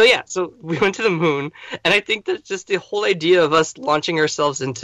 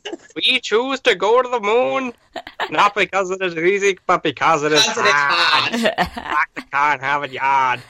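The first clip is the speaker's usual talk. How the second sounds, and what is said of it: Cartoon character impression. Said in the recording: “That was a funny impression. ... it's more of my Mayor Quimby from The Simpsons who's basically doing JFK.”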